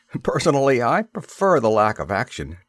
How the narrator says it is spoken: Devon laughed

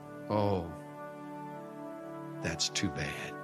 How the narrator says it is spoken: Little boy with eyes downcast quietly acknowledged

